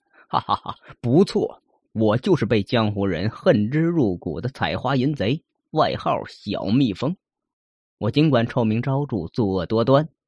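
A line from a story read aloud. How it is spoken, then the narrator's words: Smug laughing. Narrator (Chinese): 书生哈哈大笑，得意的说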